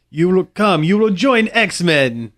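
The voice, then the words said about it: Cartoonish Russian accent, Colossus. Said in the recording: “cartoonish Russian accent”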